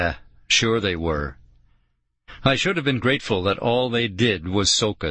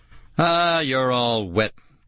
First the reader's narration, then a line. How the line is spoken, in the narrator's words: Kara said, sneering